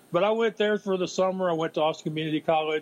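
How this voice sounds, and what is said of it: Regional accent. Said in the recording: “Everybody thinks I'm saying Crisco... It's the accent... I admit to having one.”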